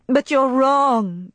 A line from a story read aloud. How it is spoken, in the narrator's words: she cried, unable to restrain herself any longer